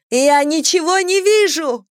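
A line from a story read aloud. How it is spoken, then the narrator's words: Painful throat-scraping shriek. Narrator (Russian): взвизгнула царапая горло до боли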